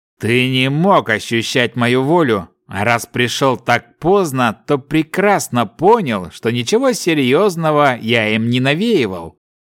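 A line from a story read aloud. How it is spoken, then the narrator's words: Plain. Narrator (Russian): ответил Старкс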